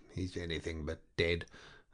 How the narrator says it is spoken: muttering to himself

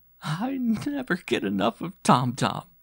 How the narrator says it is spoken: she vowed between gasps

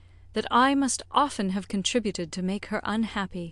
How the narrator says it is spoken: returned Emma, sighing

